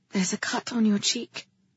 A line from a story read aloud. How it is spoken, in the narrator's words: she said softly